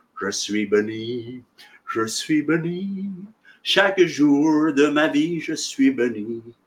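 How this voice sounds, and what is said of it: French sung with English accent. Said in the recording (French): “avec son accent, parce qu'elle était anglaise”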